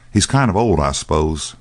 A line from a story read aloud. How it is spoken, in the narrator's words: Dan replied calmly